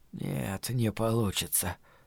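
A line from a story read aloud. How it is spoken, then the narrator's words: Breathless muttering. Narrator (Russian): пробормотал, переводя дыхание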